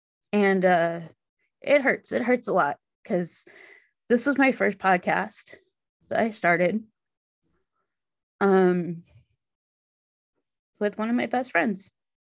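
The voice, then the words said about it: Shaky, emotional voice. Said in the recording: “you guys can probably hear it in my voice. I'm very shaky right now.”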